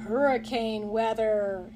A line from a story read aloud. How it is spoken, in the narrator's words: said to himself gloomily